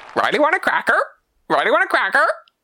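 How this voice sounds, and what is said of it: Parrot voice impression. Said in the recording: “That was a good impression, wasn't it? ... A good impression of a parrot”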